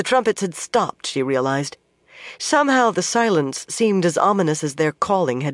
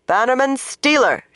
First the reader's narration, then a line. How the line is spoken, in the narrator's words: she said loudly